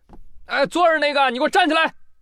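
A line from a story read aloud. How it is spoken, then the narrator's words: Displeased loud shout. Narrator (Chinese): 游客表示不满，就大喊了一声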